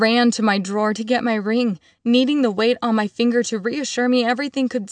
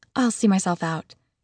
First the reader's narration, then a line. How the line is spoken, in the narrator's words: she murmured